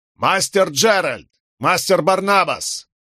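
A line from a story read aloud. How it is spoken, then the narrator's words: Shouting. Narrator (Russian): крикнул Локвуд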